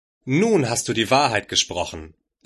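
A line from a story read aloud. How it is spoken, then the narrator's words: Plain. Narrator (German): sagte Bahira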